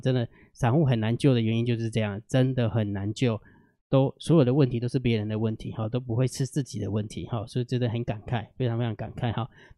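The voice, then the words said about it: Weak, strained, quiet voice. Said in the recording (Chinese): “其实我的声音很小声 ... 偶尔会卡痰，等一下会咳嗽一下 ... 就是声音出不来”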